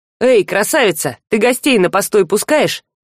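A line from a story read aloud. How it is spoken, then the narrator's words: Loud cheerful question. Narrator (Russian): громко и весело, спросил Жар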